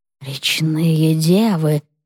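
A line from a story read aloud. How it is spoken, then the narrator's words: Old witch whispering. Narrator (Russian): прошептала ведьма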